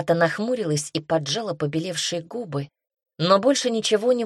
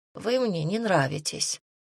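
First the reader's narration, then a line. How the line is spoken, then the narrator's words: Grumbling. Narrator (Russian): пробурчала она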